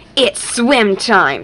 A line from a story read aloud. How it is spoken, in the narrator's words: snarled Krekko